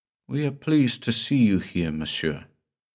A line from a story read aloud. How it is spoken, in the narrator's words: a subdued voice, a melancholy, weary voice, murmured